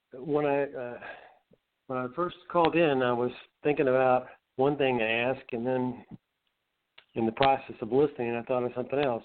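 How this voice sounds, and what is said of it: Fuzzy, rough voice from illness. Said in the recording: “my voice is a little fuzzy because I don't know. What hit me about Sunday a week ago. It's taken a long time to get through this thing”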